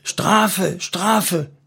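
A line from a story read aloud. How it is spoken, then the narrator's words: Excited calling. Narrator (German): rief er aufgeregt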